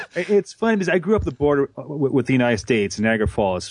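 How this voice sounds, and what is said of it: Canadian accent. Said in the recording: “is that Canadian accent I hear? ... it's all about the Canadian accent.”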